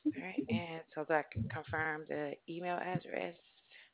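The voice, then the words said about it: Speaking very quietly. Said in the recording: “I'm talking so low.”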